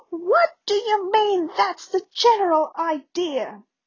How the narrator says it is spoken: Weasley shriek

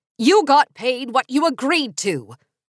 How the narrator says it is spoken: she yelled through the door

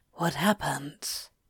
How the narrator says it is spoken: Crowley whispered

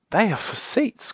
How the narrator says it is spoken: cried Silky

